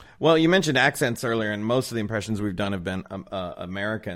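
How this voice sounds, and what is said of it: Usual voice. Nothing is said of it.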